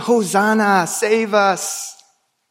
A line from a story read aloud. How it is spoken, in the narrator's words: we cheered and we jeered with the crowds